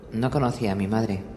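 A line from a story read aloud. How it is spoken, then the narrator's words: Plain. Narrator (Spanish): dijo Brienne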